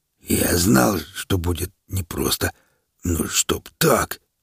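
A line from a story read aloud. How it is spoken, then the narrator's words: Hoarse wheeze. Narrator (Russian): прохрипел он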